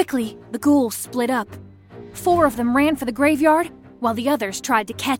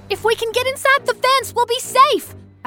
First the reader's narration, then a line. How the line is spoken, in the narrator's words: shouted